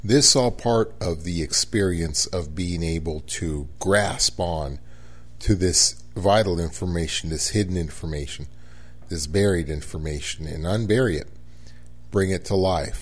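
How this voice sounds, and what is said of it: Sleepy, groggy, slower speech. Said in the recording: “I am quite sleepy ... my voice is a little groggy. ... My speed is a little slower than usual.”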